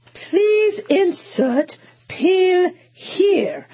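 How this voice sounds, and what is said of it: Put-on English accent. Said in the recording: “my husband really digs the English accent”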